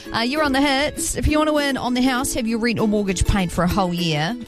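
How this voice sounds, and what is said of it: Strong New Zealand accent. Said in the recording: “my Kiwi accent came out real strong then, didn't it? Real strong.”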